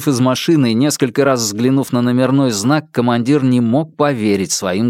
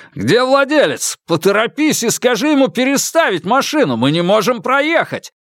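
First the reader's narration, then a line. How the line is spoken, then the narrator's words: Shouted. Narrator (Russian): крикнул он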